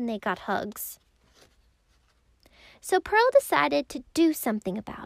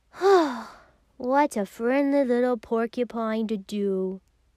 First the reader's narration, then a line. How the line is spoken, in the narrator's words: she sighed